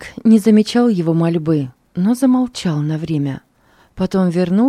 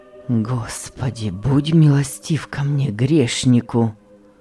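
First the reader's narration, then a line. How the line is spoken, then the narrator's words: Moaning plea. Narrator (Russian): простонал он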